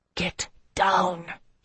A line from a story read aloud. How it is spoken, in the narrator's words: he hissed at me